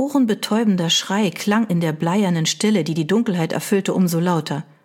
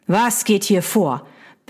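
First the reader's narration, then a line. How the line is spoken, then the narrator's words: Barked. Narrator (German): bellte die Stimme seines Cousins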